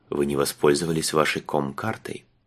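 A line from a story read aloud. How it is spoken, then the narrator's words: Gentle. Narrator (Russian): он мягко добавил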